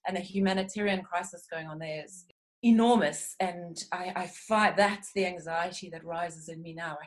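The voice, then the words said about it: South African accent. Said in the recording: “my accent ... I hail from South Africa”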